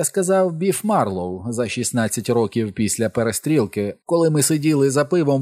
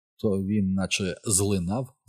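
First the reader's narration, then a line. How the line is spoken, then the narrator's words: Plain. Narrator (Ukrainian): сказав я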